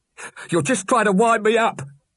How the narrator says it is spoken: he yelled

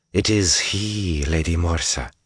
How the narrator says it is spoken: the other Damani Suldam said suddenly in a soft drawl that Rand could barely understand

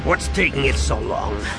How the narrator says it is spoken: Han growled

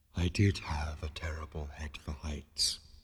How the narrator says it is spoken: it added wistfully

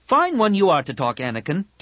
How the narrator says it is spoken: Tahiri snapped

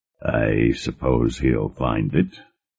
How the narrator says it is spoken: Varric murmured

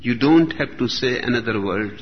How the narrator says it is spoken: said the rabbi

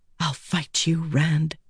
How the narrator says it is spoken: she whispered

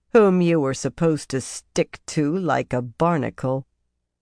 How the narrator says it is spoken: she said dryly

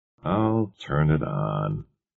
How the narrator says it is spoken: Bentley said wearily

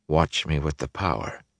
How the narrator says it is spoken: he said faintly

